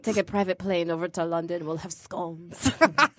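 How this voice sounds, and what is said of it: Unidentifiable put-on accent. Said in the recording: “I don't know what accent you were just doing.”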